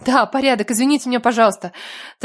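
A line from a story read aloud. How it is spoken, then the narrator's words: Rapid chatter. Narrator (Russian): тараторила я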